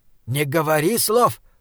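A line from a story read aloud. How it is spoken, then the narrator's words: Hiss. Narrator (Russian): прошипел Бинабик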